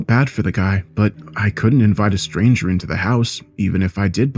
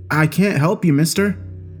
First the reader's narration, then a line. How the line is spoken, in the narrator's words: called out